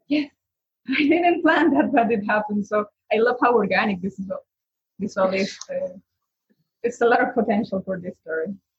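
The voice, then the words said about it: Non-native English accent. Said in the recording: “I'm guessing from your accent that English is not your native language.”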